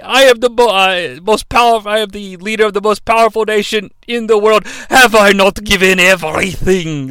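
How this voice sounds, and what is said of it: Poor imitation of a character's accent. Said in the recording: “That's a really bad impression. I love the accent.”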